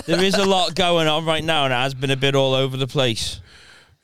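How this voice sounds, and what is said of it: Thick Scouse accent. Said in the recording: “every cunt is talking over them in the thickest Scouse accent ... You've ever heard.”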